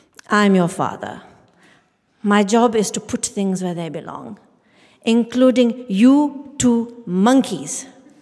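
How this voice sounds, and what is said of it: Indian accent. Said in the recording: “our father, skinny shoulders, thick glasses, Indian accent”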